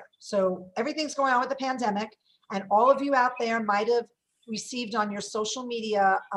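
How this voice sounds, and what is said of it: Brooklyn accent. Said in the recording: “the Brooklyn accent... I add R's to everything.”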